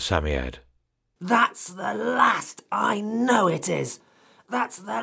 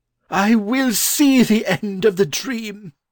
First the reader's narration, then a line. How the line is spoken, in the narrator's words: cried the learned gentleman